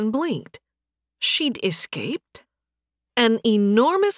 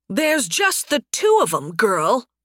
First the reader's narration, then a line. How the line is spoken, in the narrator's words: the bandit leader, Derek, shouted back